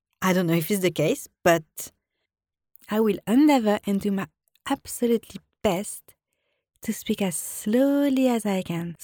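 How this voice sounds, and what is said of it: Strong French accent. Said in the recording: “I have an accent, a very strong accent ... French people have a tendency to speak fast”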